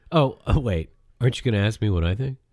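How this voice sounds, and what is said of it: Sad, pathetic imitation of another person. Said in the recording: “that's my impression of Micah ... Could you make it a little sadder? Could you make me sound a little more pathetic?”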